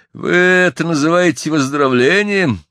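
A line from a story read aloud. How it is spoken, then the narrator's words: Grumbling. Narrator (Russian): ворчал Джон Бидлейк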